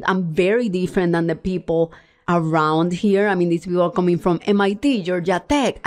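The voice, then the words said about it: Puerto Rican Spanish-accented English. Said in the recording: “I am from University of Puerto Rico ... I have an accent.”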